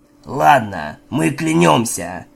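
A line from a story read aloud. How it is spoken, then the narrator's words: Hoarse voice. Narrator (Russian): сказал хриплоголосый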